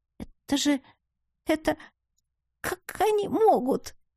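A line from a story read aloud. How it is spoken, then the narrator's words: Quiet sob. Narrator (Russian): Она тихо всхлипнула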